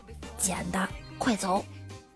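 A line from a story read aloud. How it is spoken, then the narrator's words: Low voice. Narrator (Chinese): 低声说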